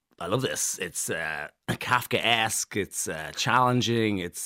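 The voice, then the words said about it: Imitates another person's voice. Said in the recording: “your Nicolas Cage impression”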